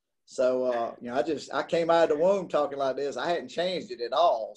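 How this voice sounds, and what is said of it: New York accent. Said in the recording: “you were from New York, and you said, is it that evident with the accent? ... man, I love that freaking accent you got”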